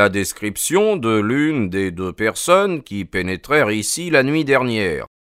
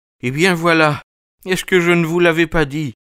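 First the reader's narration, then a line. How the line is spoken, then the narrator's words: Man exclaiming. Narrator (French): s'écria le pauvre homme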